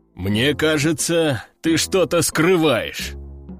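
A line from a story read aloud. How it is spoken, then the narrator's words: Deep bass voice. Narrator (Russian): пробасил Лежаков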